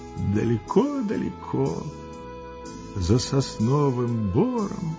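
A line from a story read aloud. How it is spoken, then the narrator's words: Quiet dreamy voice. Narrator (Russian): ответил он тихим, мечтательным голосом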